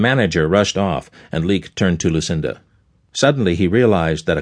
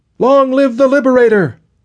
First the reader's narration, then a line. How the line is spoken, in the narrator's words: another yelled